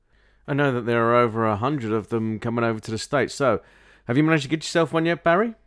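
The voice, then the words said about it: Thick British accent. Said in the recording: “super cool, thick British accent”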